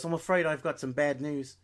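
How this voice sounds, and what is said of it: Poor put-on Irish accent. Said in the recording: “a terrible Irish accent... Australian, New Zealand, I don't know”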